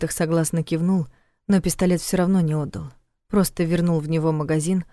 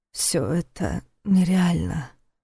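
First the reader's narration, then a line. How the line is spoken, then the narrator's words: Muttered. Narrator (Russian): пробормотал он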